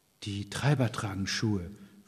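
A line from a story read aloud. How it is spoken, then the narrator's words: Man whispering. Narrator (German): flüsterte der Mann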